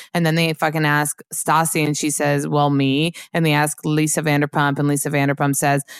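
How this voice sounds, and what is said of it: Usual voice. Nothing is said of it.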